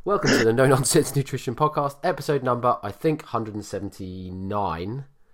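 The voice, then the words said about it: Congested voice from a cold. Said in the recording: “Got COVID. Well, I haven't got COVID. I've got a cold”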